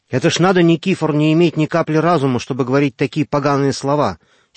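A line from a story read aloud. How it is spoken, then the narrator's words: Angry exclamation. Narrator (Russian): сердито воскликнул Йося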